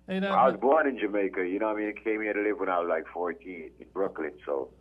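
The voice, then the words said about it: Jamaican accent. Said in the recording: “I can hear the accent.”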